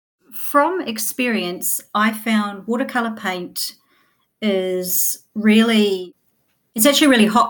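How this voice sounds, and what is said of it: New Zealand accent. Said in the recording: “as we can tell by your accent, you are New Zealand.”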